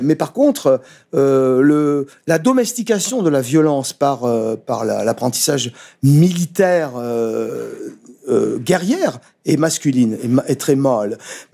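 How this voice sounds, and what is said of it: Foreign accent in French. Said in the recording (French): “à cause de mon accent, je dis mal, il faut dire mâle.”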